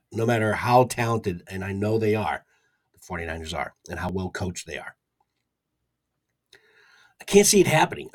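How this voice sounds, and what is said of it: Hoarse, strained voice. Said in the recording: “my voice is a little bit harsh from the from blasting as much decibels as I pumped out in that Eagles game last night. Surprised I even have this much of a voice”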